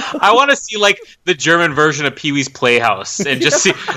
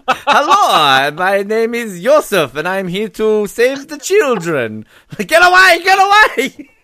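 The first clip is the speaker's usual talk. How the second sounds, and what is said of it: Put-on evil German accent. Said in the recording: “that real, like, evil German accent”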